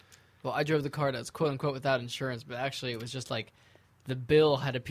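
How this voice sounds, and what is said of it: Usual voice. Nothing is said of it.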